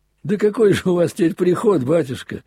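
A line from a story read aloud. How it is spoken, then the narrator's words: Laughing. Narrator (Russian): засмеялся на этот раз я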